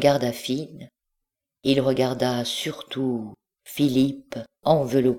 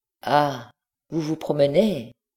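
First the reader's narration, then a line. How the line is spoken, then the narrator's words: Mocking tone. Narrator (French): reprit le comte d'un ton narquois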